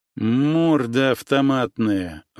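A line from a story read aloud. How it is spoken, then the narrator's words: Nasal remark. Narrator (Russian): высказался Гнусавый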